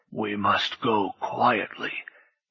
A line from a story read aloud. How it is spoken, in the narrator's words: he whispered